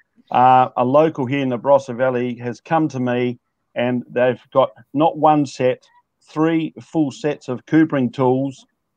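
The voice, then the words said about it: Excited, energetic voice. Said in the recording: “We are so bloody excited. You wouldn't believe it. ... we're pretty excited. You can probably tell by my voice.”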